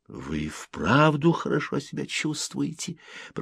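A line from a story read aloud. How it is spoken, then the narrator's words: Whisper. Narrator (Russian): прошептал Селло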